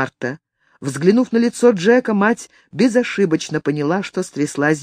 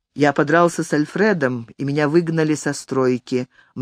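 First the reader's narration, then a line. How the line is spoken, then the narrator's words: Gloomy. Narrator (Russian): мрачно проговорил Джек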